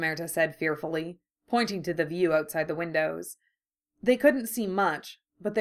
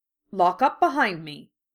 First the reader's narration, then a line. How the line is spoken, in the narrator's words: McGonagall said sharply